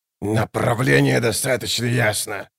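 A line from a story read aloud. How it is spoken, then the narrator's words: Growling. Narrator (Russian): прорычал Баргаст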